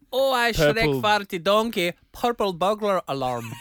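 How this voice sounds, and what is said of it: Attempted Scottish accent. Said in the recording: “Can you say that in your Scottish accent? ... That's pretty good. ... It wasn't a Scottish accent at the end”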